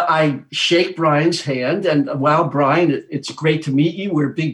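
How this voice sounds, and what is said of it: Usual voice. Nothing is said of it.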